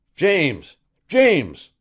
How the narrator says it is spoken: Griffin thundered

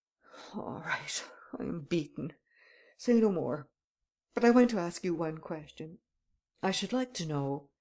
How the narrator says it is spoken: muttered

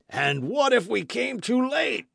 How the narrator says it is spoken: cried Maston, in tones of despair

